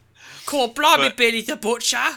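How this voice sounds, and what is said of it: Exaggerated bad fake Cockney accent. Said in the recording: “accent is still from the school of Dick Van Dyke English talking... It's awful!”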